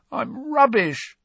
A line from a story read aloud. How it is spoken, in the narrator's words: croaked Ron